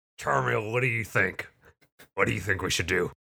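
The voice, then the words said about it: Role-play character voice. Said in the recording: “character voice”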